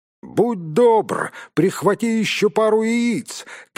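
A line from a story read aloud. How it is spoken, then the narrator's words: Shout after someone. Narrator (Russian): крикнул ему вслед Гэндальф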